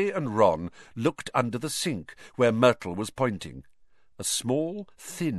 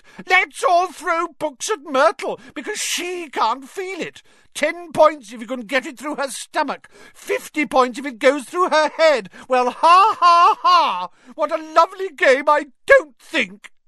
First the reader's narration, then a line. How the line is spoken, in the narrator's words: Myrtle shrieked